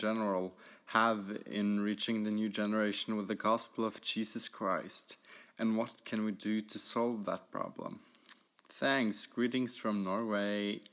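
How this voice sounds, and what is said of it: Norwegian-accented English. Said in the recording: “Norway? ... I was trying to figure out that accent.”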